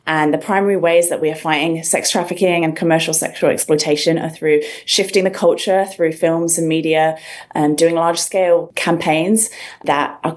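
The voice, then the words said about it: English accent. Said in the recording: “You can probably tell from the accent, I'm originally from England”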